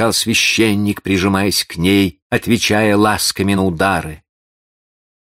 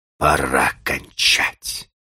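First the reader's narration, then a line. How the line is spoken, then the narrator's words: Whisper through clenched teeth. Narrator (Russian): Прошептал он сквозь зубы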